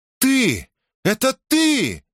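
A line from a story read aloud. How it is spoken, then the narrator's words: Shouting princess. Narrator (Russian): крикнула принцесса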